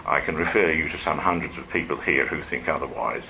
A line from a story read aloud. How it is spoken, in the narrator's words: responded Wilmot dryly